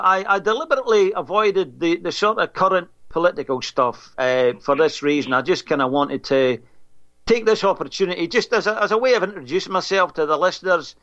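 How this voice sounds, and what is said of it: Foreign-sounding accent. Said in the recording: “some foreign dude with a strange accent.”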